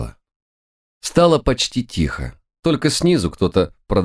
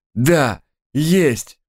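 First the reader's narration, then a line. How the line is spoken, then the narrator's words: Almost joyful exclamation. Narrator (Russian): почти радостно воскликнул шериф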